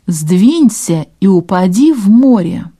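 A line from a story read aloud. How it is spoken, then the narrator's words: Laughing shout into wind. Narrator (Russian): с громким хохотом фермер прокричал против ветра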